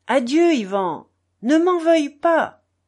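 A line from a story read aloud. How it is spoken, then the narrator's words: Father's final shout. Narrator (French): cria une dernière fois son père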